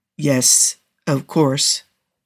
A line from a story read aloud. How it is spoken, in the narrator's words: Cougar replied, keeping his voice calm, even if he desperately wanted to question why Jensen even had to ask